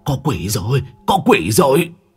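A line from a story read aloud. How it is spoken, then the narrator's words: Old man stammering. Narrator (Vietnamese): Lão, miệng lắp bắp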